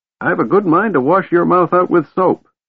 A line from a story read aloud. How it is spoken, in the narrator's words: the old mage snapped, glowering at Tanis